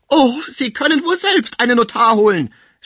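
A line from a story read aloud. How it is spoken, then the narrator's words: Tearful shouting. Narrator (German): schrie die Sibo mit Tränen in den Augen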